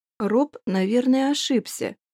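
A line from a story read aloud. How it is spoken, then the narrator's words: Slow speech. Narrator (Russian): медленно произнесла я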